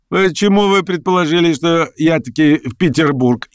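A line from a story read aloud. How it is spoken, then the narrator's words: Laughing. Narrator (Russian): еще открытие засмеялся и Петр Степанович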